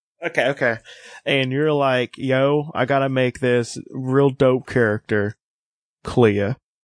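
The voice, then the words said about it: Kentucky twang in the speech. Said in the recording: “Did I put a bit of a twang on that? ... you always have a bit of a twang ... You definitely sound like you're from Kentucky.”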